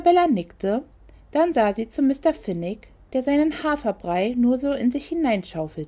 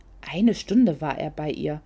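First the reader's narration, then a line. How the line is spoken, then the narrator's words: Whispered. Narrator (German): flüsterte Babette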